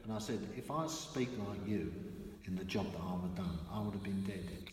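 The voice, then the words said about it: East End London accent. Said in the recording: “I've never lost my East End accent.”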